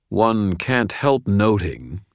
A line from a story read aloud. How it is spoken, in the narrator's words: he said